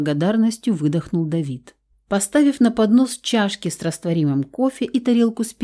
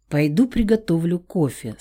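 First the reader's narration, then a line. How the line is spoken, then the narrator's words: Plain. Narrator (Russian): сказала я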